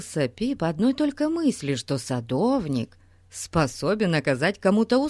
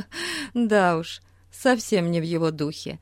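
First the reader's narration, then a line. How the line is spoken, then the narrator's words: Laughing. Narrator (Russian): засмеялась мисс Хармер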